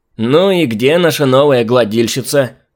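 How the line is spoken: Creaky voice question. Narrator (Russian): Скрипучим голосом спросил он

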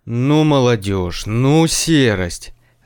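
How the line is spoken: Grumbling. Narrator (Russian): заворчал Зданович

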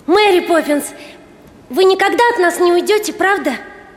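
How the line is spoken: Enchanted exclaiming boy. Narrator (Russian): Майкл, совершенно очарованный всем происходящим, воскликнул

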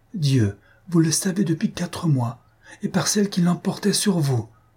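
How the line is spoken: Exclaimed. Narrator (French): elle s'écria

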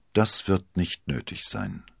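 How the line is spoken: Calm. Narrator (German): sagte Athos ruhig

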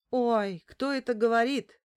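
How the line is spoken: Feigned bewildered exclamation. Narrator (Russian): Сделанным недоумением воскликнул Каримов

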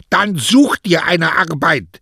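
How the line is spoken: Barking, snapping. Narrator (German): bellte ihn seine zarte Frau an

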